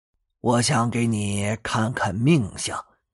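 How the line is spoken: Hoarse old man, coughing. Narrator (Chinese): 老头咳嗽了两声，沙哑着道

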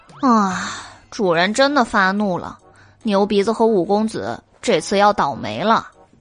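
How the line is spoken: Sighing. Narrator (Chinese): 黑猫叹气道

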